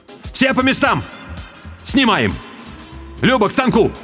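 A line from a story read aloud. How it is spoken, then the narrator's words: Shout. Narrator (Russian): крикнул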